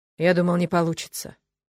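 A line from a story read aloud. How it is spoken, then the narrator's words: Tired. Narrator (Russian): устало произнес он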